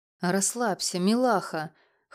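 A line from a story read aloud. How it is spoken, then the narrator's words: Hoarse voice. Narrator (Russian): хрипло произнес Лёша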